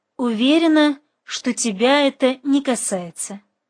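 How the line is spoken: Calm. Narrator (Russian): спокойно проговорила Марина

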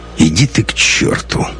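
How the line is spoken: Tired retort. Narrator (Russian): устало бросил Лекс

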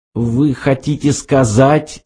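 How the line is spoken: Forced out with difficulty. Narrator (Russian): с трудом выдавил из себя Артур

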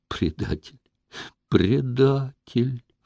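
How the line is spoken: Sobbing. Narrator (Russian): всхлипывала Катюша

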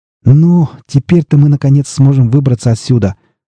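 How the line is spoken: Joyful exclamation. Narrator (Russian): радостно воскликнул Хопро

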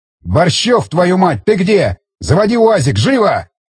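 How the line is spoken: Officer yelling. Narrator (Russian): заорал офицер

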